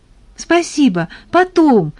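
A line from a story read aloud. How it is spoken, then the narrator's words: Hurried. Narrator (Russian): торопливо ответила тата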